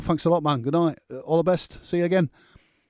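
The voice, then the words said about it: Put-on Manchester accent. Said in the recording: “that Manchester accent”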